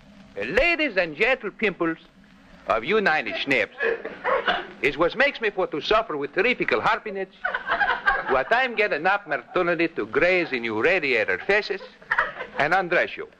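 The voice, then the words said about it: Put-on comic Greek dialect. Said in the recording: “that Greek dialect of yours? You know, your imitation of that vaudeville actor”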